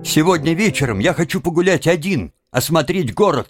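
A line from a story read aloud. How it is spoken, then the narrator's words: Sharp interruption. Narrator (Russian): резко перебил его Тим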